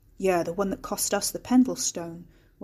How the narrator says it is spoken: Wes muttered

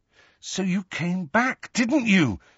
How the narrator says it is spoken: said Harry urgently

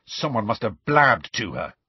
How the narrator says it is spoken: Ron said angrily

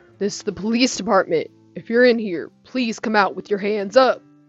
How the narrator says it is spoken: Captain shouted

